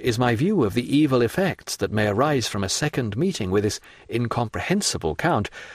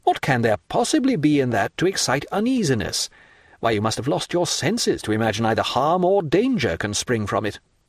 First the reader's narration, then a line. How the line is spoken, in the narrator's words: exclaimed Albert